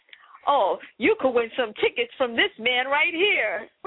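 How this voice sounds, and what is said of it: Impression of a golden-voiced announcer. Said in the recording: “let me just do this voice real fast ... That was the voice. That's the dude that, the voice man? ... The homeless man? ... he had that golden voice ... I was just trying to imitate him.”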